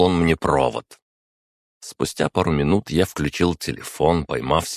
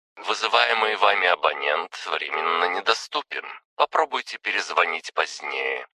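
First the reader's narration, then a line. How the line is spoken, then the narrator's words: Pleasant female recorded voice. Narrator (Russian): сообщил автоответчик приятным женским голосом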